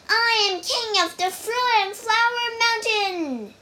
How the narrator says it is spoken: yelled Wukong

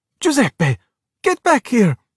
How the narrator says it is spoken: Luca cried

